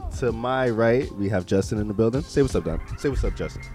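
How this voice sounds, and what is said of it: Announcer-style radio voice. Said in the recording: “I try to put my radio voice on, you know.”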